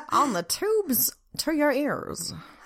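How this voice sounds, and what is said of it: Old-timey radio announcer voice. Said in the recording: “Old-timey radio voice.”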